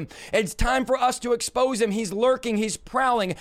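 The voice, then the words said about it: Passionate shouting. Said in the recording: “as I'm preaching and shouting and being passionate ... why are you shouting?”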